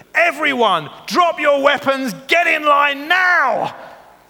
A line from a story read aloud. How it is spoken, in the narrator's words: shouted as loud as she could